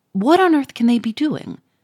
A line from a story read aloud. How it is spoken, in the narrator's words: said uneasily